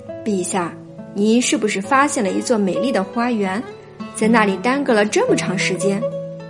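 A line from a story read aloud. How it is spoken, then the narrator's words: Hearty laughter. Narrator (Chinese): 哈里发见吉尔法那副着急的样子，禁不住捧腹大笑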